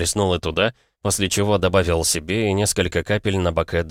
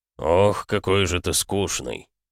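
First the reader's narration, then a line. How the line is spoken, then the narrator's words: Demon muttering. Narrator (Russian): Пробормотал демон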